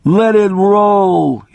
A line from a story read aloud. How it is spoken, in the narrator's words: he screamed